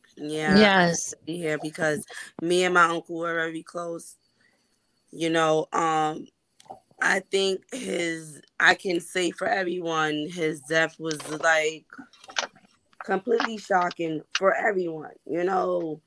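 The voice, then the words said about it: Slightly hoarse voice. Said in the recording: “excuse my voice. It's a little hoarse ... I go through this every allergy season”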